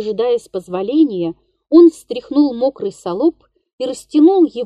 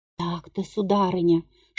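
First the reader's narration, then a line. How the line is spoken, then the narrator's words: Whisper. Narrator (Russian): шептал он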